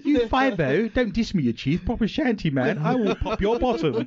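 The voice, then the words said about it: Street slang in posh English accent. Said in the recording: “I like being gangster, but in a posh English accent. It doesn't quite work, does it?”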